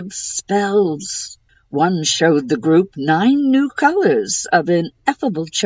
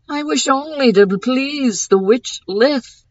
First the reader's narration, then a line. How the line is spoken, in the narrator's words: Lane pleaded